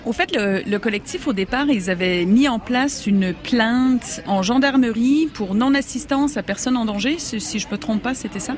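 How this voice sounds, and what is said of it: Canadian French accent. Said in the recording (French): “Vous êtes originaire du Canada ... ce petit accent bien sympathique”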